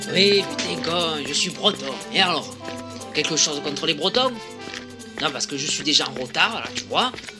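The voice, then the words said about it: Strong southern French accent. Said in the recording (French): “avec un accent méridional prononcé”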